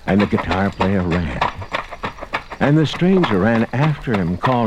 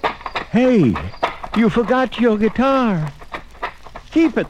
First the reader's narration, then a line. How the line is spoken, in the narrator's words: the guitar player yelled